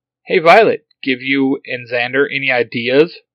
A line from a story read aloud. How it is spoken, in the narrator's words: Fred chuckles